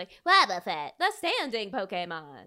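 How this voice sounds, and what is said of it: Good impression of Pokedex voice. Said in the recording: “That was a really good Pokedex impression, by the way. I thought that was really good. ... on point. ... I've been working on my voices.”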